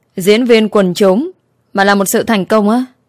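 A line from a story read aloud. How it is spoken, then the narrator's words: Laughing shout close by. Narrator (Vietnamese): Diễm My không nhịn được cười, ghé sát tai cô rồi hét to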